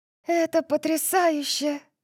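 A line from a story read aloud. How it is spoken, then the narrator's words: Cooing. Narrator (Russian): проворковала София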